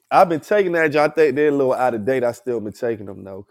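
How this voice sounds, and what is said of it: Stuffy, congested nasal voice. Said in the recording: “I got a little sinus, y'all. I'm stuffy as shit ... I sound like my nose is stopped up”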